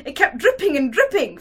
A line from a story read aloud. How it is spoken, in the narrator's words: Fenya exclaimed, her distraught imagination apparently having invented this horrible detail